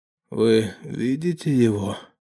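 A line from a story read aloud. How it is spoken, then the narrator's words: Hoarse question. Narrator (Russian): хрипло спросил наемник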